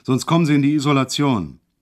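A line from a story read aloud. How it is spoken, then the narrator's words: Sudden roar. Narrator (German): brüllte er auf einmal los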